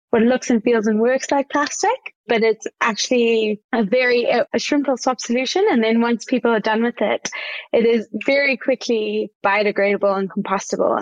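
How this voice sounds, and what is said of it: South African accent. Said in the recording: “I sense a bit of a South African accent there”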